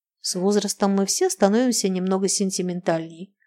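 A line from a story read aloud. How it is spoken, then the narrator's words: Plain. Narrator (Russian): ответил Махначев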